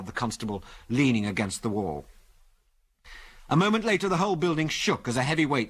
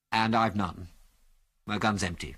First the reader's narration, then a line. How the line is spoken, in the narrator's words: said Biggles quietly